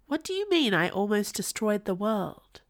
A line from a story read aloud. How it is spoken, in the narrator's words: Poet sighed at her